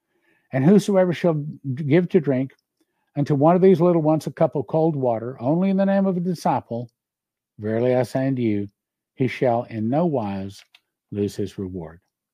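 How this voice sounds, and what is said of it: Worn-out, tired voice. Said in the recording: “My voice is gone. ... I'm exhausted.”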